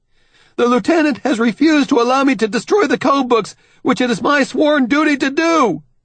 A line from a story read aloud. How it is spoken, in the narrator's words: Benjamin shouts